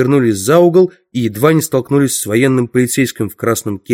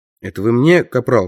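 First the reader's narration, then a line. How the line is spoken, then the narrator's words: Plain. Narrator (Russian): спросил он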